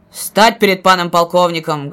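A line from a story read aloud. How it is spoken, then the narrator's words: Loud barked shout. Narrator (Russian): гаркнул Исаул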